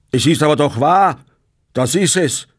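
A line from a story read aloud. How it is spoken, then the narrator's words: Angry shout. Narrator (German): schrie Bartle mit zornrotem Gesicht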